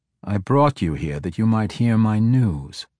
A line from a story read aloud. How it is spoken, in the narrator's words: Gromph said, a perturbed element clearly evident in his melodic voice